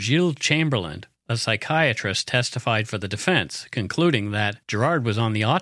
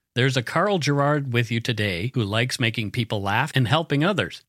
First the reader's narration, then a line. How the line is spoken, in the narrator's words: Girard said